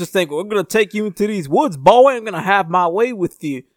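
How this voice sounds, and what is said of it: Put-on Southern US accent. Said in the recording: “I'm putting on this southern accent”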